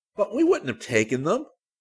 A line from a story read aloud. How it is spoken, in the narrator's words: Stephen said scornfully